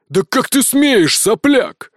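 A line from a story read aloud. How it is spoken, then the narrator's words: Roaring. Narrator (Russian): взревел он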